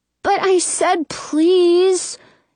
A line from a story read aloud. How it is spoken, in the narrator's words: he whines